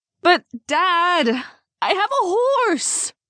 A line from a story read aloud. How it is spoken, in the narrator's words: Elizabeth whined as she pouted at him like a 12-year-old